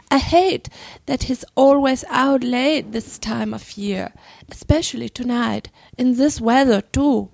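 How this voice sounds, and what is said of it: Put-on English accent. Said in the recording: “Do I try to read with an English accent? ... English accent?”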